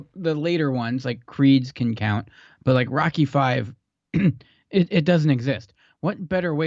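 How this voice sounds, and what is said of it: Usual voice. Nothing is said of it.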